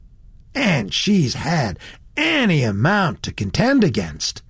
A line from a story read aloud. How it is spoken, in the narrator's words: ended the young man warmly